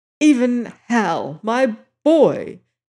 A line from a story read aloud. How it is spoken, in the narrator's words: he cried in a shaking voice